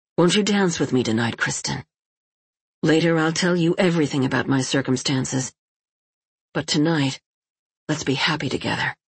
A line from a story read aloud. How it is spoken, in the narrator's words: he said with great ardor